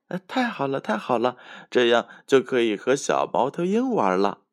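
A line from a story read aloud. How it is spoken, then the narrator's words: Old man, laughing. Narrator (Chinese): 山羊爷爷笑着说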